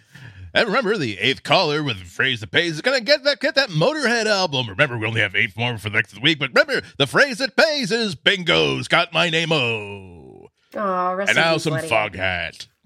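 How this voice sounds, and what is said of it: Fake radio DJ voice. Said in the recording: “radio voice ... I sound super fake ... I was faking it really hard”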